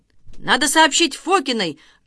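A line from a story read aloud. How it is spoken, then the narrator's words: Shouting. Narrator (Russian): крикнул Венька Смирнов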